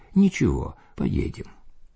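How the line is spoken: Calm remark. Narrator (Russian): Владыка же спокойно заметил

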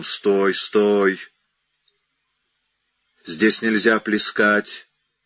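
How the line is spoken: Familiar grumbling voice. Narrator (Russian): Метис сказал таким знакомым ворчливым голосом

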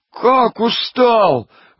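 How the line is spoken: Wailing. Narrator (Russian): вопит Пичуга

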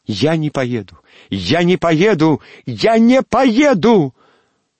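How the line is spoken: Sudden shout. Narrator (Russian): Вдруг закричала Алевтина

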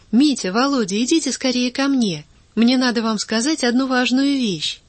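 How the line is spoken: Cheerful shout. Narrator (Russian): вдруг оживилась, весело закричала

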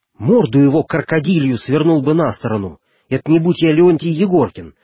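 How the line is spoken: Sailor exclaiming eagerly. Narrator (Russian): с увлечением воскликнул матрос

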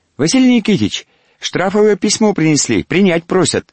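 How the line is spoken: Unexpectedly thin voice. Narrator (Russian): Неожиданно тонким голоском сказал он

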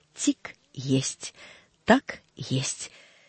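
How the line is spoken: Clock's sly ticking whisper. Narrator (Russian): стучали большие круглые часы и точно шептали вкрадчиво и хитро

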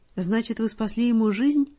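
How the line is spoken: Rapid speech. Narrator (Russian): быстро-быстро сказала Лидочка

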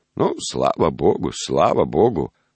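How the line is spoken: Old man's toothless mumble. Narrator (Russian): прошамкал старик

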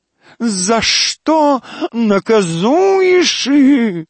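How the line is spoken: Howling man. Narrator (Russian): взвыл декадент

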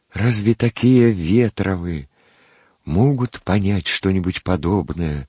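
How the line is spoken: Timid aside. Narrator (Russian): Робко вставил он мимоходом

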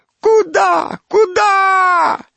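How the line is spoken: Cry then wailing. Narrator (Russian): вскрикнул кто-то и заголосил

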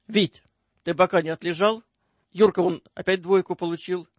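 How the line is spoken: Sharp intruding voice, woman. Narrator (Russian): Резко врывается в его уже затуманенное сознание голос Любы

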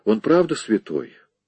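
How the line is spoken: Tired. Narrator (Russian): Он устало проговорил

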